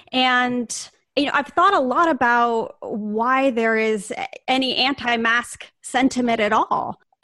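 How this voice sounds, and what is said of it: American accent. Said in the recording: “I'm sure that our listeners can tell from my accent that I am from the United States”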